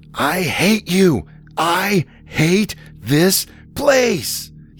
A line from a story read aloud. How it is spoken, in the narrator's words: he screamed